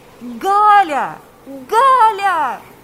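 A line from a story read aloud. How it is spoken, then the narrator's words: Shouting. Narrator (Russian): кричал Павел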